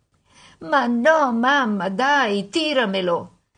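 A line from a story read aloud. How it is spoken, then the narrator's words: Mock whining. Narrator (Italian): fece finta di piagnucolare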